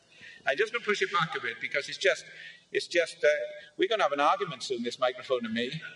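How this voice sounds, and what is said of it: Welsh accent. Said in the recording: “a Welsh accent”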